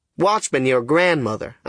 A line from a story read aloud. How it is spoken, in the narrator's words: I says